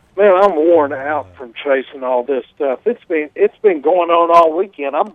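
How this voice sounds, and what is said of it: Hoarse, partly lost voice. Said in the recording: “My voice is about halfway gone from all the telephone conversations all weekend.”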